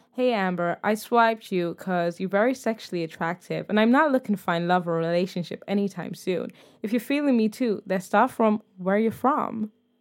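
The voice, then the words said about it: Put-on American accent. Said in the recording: “I don't know why I'm doing an American accent, but I feel like he's American.”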